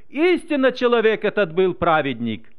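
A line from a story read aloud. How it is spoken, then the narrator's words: Exclaiming, praising God. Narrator (Russian): Один офицер даже воскликнул, прославляя Бога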